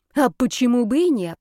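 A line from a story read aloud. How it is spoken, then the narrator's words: Offended hiss. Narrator (Russian): прошипел оскорбленный Зарецкий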